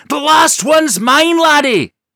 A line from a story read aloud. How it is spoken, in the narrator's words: Dirk shrieked